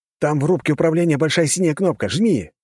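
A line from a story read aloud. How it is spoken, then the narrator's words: Shouted. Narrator (Russian): выкрикнул черноволосый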